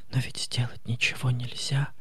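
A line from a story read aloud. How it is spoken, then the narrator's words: Whisper. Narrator (Russian): шепнула она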